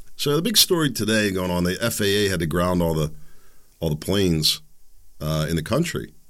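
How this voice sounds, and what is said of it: Sore-throated voice from a cold. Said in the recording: “This cold, this lingering cough is killing me ... My throat is sore. My tonsils are like on fire ... If my voice sounds a little funny, I'm struggling a little bit.”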